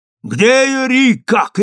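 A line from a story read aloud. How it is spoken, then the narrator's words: Shouted. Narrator (Russian): крикнул я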